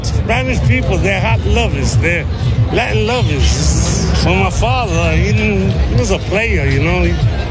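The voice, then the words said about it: Noticeable foreign accent. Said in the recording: “he also had an interesting accent... your accent's from where?... From Poland. Polish”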